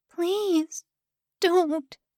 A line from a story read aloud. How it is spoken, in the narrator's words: she croaked